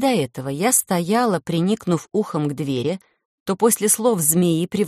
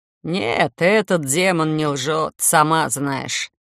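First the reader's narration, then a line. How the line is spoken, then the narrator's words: Oddly toned snort. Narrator (Russian): со странной интонацией хмыкнул капитан Варго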